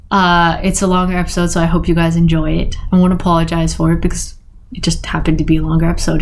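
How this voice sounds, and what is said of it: Hoarse, fading voice. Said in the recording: “My voice is coming, is leaving, is going. I think it's going”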